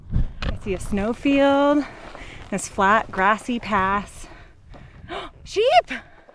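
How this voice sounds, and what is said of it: Tired, slightly out of breath. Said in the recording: “Tired, hot, bit out of breath.”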